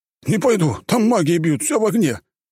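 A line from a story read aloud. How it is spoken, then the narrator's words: Exclaimed. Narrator (Russian): Воскликнул один из наемников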